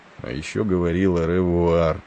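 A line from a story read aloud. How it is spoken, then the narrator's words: Muttering to himself. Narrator (Russian): пробормотал он, никому не обращаясь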